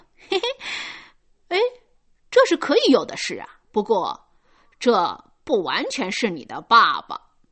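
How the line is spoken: Older child sneering. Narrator (Chinese): 那个大孩子冷笑的说

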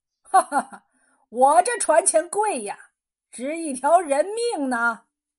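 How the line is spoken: Hearty laughter. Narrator (Chinese): 艄公哈哈大笑

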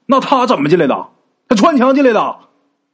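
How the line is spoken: Sudden shout. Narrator (Chinese): 吴大师这时候突然间就冲陈氏喊呐

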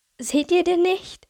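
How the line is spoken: Sudden scream, slightly hysterical. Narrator (German): schrie kleine Sonne mit leicht hysterischem Unterton dazwischen

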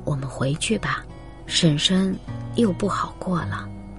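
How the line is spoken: Whisper. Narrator (Chinese): 母亲悄声说

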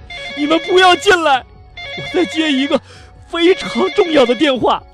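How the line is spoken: Frightened hurried shout. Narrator (Chinese): 西姆啊，吓得赶紧喊道

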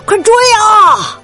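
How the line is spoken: Shouting. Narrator (Chinese): 哈利喊道

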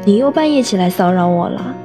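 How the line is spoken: Laughing scolding. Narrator (Chinese): 我笑着骂道

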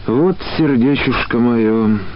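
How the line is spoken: Sighing old woman. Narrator (Russian): не сильно беспомощно вздохнула старая женщина

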